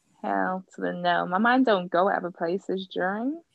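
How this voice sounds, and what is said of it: Put-on American accent. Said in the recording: “I don't know why I do this American accent. I really don't know why. Why it just comes out.”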